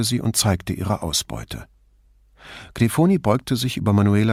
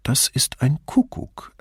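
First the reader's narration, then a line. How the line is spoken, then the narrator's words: Calm explanation. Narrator (German): erklärte Grifoni ruhig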